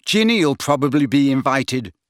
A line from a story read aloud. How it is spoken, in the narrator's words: snapped Ron, who did not seem to have taken kindly to being ignored by Slughorn